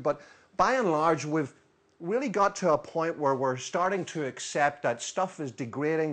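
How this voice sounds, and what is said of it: Northern Irish accent. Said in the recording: “as you probably guess from my accent. I'm from Northern Ireland”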